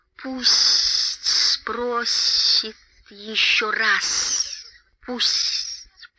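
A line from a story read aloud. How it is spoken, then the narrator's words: Hissing. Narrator (Russian): прошипел Голлум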